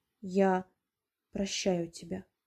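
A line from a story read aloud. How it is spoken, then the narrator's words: Quiet female reply. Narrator (Russian): тихо откликнулась она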